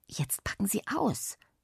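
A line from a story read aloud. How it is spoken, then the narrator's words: Whisper. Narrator (German): flüsterte Joschi mir zu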